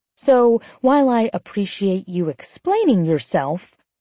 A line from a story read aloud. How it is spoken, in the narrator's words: I spat sarcastically